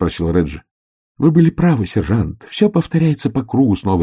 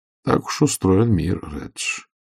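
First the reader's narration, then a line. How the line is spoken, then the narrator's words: Muttering. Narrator (Russian): пробормотал Ваймс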